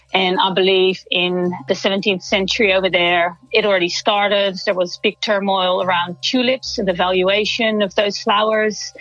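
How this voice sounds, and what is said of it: Dutch accent. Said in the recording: “I'm from the Netherlands. You might pick up an accent.”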